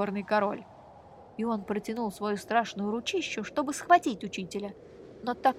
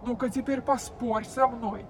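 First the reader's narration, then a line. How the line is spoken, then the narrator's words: King shouting. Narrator (Russian): закричал горный король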